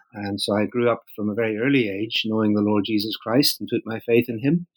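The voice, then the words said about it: Northern Irish accent. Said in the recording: “the accent, as some people might recognize, is from Northern Ireland”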